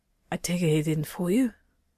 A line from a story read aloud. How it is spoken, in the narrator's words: Jackson coughed and said in a rasp